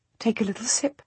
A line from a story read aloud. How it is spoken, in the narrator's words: I say gently